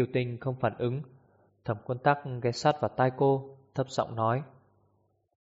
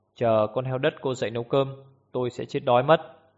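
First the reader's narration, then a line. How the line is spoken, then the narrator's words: Cold. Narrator (Vietnamese): Thẩm Quân Tắc lạnh lùng nhìn cô và nói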